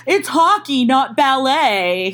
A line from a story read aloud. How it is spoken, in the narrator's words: he yells at me